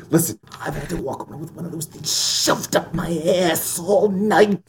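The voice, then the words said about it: Good impression of movie character. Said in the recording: “That's a good impression.”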